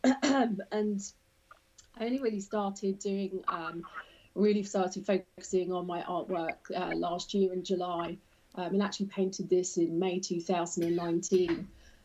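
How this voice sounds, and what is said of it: British accent. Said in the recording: “as you can probably tell from my accent, I'm originally from the UK”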